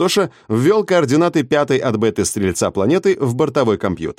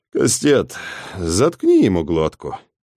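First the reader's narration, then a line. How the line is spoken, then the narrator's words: Wearily commanding. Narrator (Russian): велел он устало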